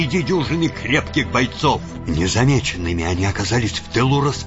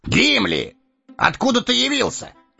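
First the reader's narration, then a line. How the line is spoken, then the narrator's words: Surprised exclamation. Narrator (Russian): Удивленно воскликнул Эомер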